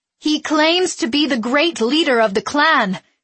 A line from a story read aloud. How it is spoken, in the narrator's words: she shouted above the rising clamor of the crowd